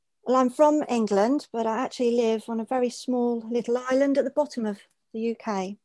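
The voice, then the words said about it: English accent. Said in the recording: “you can hear a wonderful accent”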